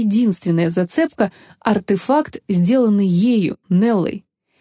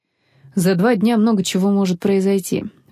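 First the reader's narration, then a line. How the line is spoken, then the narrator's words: Sighing. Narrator (Russian): вздохнул Федерико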